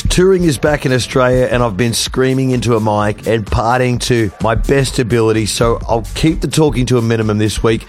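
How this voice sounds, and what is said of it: Hoarse, nearly lost voice. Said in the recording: “I have officially lost my voice.”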